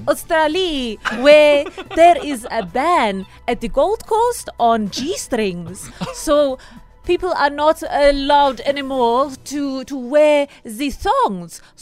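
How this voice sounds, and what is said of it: Put-on Russian accent. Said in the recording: “I knew you'd go Russian. ... why are you mocking my accent?”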